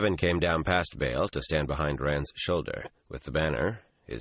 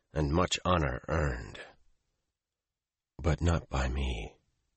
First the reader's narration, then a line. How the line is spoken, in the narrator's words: Rand said wearily